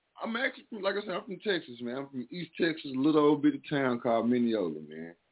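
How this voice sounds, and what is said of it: Slight Southern US accent. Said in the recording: “you still got your little accent a little bit.”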